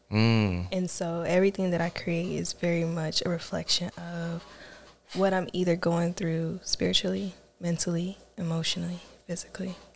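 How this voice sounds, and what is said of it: Smooth, soft ASMR-like voice. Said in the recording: “She got a nice smooth voice too. ... you got the ASMR voice.”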